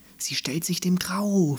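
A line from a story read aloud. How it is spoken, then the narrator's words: Someone whispering. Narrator (German): flüsterte jemand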